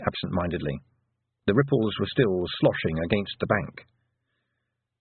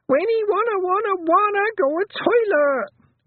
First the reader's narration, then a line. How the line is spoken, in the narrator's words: Wentworth shrieked